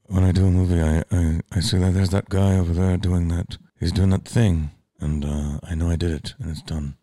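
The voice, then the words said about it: Johnny Depp impression. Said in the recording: “Johnny Depp's like, I gotta do an impression. I gotta work on him.”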